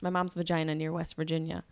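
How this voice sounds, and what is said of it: Said very fast. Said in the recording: “You have to say it really fast.”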